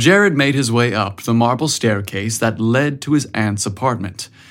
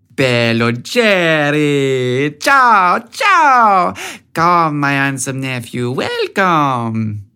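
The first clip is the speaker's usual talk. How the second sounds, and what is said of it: Heavy Italian accent. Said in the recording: “in her heavy Italian accent”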